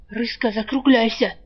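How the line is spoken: Anxious whisper. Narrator (Russian): тревожно шепнул Жар

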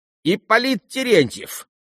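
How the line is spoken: Sudden shrill squeal. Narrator (Russian): неожиданно визгливым голосом провизжал последний

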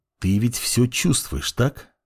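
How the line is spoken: Quiet voice. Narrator (Russian): тихим голосом произнес парень

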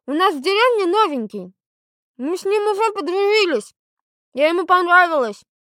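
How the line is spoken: Loud, mouth full. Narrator (Russian): сказала громко с набитым ртом

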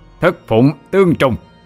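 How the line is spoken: Roaring incantation. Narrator (Vietnamese): Tiên Phụng cũng bắt ấn chú mà gầm lên

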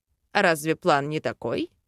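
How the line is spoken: Grunt. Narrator (Russian): Хмыкнул

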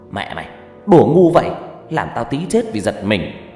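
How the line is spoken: Angry voice. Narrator (Vietnamese): nói với tôi bằng giọng giận dữ

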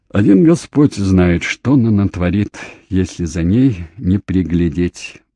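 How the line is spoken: Sighing. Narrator (Russian): вздохнула

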